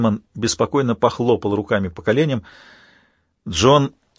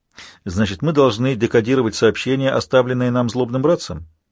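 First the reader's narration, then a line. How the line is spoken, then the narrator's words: Plain question. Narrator (Russian): спросил он старика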